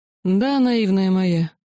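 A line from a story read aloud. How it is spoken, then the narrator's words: After laughing. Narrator (Russian): отсмеявшись, произнес кесарь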